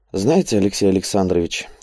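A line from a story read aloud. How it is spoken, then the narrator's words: Thoughtful, musing aloud. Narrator (Russian): как бы размышляя вслух, задумчиво произнес он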